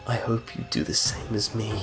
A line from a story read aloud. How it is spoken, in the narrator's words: She uttered quietly